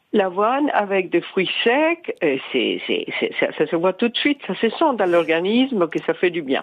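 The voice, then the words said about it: Mixed South American accent. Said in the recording (French): “votre petit accent d'ailleurs, il vient d'où ... D'Amérique du Sud ... Moi, j'étais plus sur l'accent anglais ... les mélanges d'accents”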